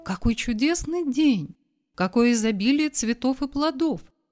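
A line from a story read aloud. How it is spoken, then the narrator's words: Plain. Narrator (Russian): сказал торговец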